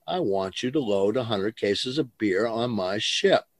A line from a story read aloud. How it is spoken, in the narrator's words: I said calmly